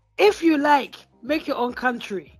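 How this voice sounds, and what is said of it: Imitated Nigerian accent. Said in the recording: “I'm gonna try and do one of my best Nigerian accents. I might not come through yet.”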